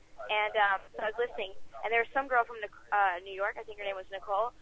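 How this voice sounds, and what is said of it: Very fast speech. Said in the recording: “I'm talking really fast.”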